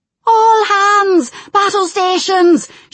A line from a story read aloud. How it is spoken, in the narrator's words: shouted Telda, in a voice that seemed far too loud to have issued from such a short frame